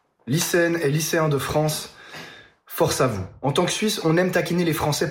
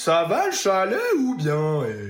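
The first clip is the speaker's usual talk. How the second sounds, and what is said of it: Mock Swiss French accent. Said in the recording (French): “imiter l'accent suisse”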